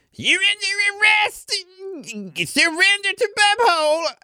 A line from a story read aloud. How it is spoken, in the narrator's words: Farthole's going to yell